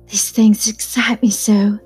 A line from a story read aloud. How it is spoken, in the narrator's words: she whispered